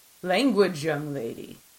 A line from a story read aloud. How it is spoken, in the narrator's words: Wardani rumbled from somewhere aft